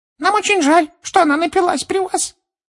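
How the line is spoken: Dejected squeaky elf. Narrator (Russian): понуро пропищал другой эльф, сокрушенно

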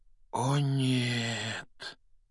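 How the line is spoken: Quiet. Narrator (Russian): тихо произнес Рон

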